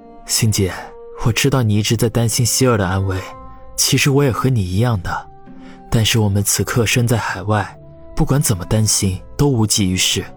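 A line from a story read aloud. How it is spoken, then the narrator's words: Soft, smiling. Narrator (Chinese): 王宇微微一笑，轻声的说道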